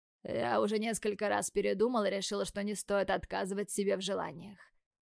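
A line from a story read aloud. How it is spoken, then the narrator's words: Hoarse voice. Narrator (Russian): хрипло произносит Тим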